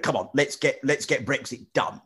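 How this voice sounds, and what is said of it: Imitates another person's voice. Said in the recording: “I do a Boris Johnson impression ... He sort of talks like that, doesn't he?”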